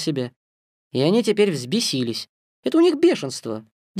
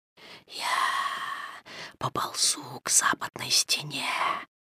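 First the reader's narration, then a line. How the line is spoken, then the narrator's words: Whisper. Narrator (Russian): шепнул Каа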